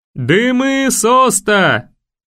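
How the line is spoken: Signalman shouting. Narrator (Russian): прокричал сигнальщик

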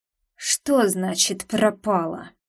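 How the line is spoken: Male growl. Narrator (Russian): прорычал он

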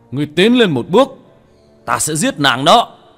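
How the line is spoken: Fierce shout. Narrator (Vietnamese): Thần tôn, một khuôn mặt dữ tợn hét lên

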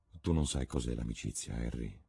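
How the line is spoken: Murmuring. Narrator (Italian): mormorò

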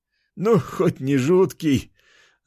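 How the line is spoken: Laughing loudly. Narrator (Russian): расхохотался тот

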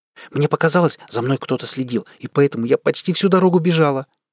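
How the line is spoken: Rapid rattling speech. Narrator (Russian): быстро протараторила Бекки

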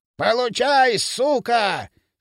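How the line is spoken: Jubilant shout. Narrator (Russian): С ликованием крикнул Травкин

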